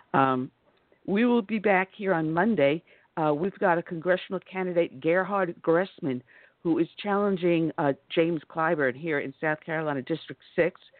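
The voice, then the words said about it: Hoarse, strained voice. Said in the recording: “I am losing my voice and I'm having a hard time.”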